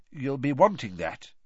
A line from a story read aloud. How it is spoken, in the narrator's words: he said